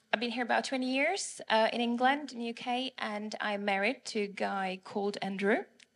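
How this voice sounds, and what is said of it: Czech accent. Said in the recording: “my accent is from Prague, Czech Republic,”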